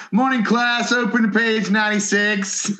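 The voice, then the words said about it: Put-on American accent. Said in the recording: “There he is again with his American accent ... I know, I heard it ... I can't quite place it”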